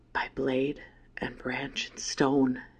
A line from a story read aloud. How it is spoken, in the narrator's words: he whispered